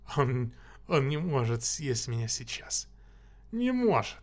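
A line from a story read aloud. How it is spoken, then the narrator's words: Giggling. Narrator (Russian): Хихикая, он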